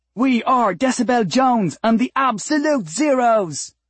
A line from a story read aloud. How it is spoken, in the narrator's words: she screamed over the pituitary-melting harmonies of the wormhole chorus above